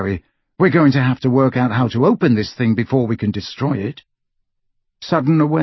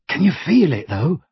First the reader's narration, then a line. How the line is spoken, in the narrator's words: Ron asked in a hushed voice